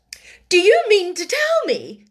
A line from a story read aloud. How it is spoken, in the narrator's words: she cried out